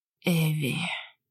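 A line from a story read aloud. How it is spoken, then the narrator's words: Whispered. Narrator (Russian): прошептал Кристен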